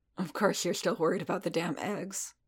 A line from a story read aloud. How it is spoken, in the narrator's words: Paz muttered